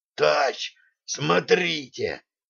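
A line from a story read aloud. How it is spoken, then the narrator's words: Sailor's hoarse rasp. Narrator (Russian): прохрипел матрос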